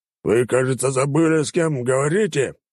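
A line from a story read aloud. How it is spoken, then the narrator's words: Growled. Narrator (Russian): прорычал покупатель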